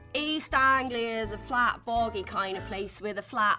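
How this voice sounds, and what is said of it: Usual voice. Nothing is said of it.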